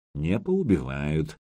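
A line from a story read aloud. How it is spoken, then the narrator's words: Quiet. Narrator (Russian): негромко произнес князь воевода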